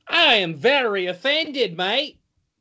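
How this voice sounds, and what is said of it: Bad put-on Australian accent. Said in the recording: “your terrible Australian accent”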